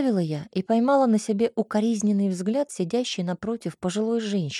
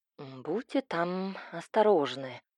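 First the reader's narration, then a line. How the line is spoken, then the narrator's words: Mother grumbling. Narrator (Russian): проворчала мама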